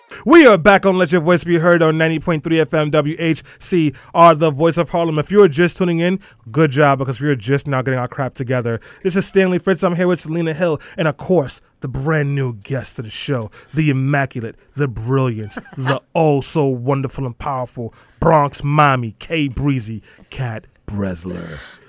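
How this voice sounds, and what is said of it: Announcer-style radio voice. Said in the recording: “That was my radio voice.”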